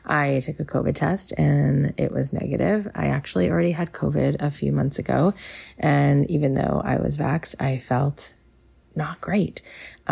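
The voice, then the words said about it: Sick, under-the-weather voice. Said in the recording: “I am a little under the weather today, so if you hear that in my voice ... So if you hear it in my voice, that's why.”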